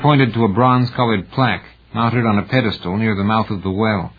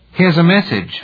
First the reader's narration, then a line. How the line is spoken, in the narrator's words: Farley called out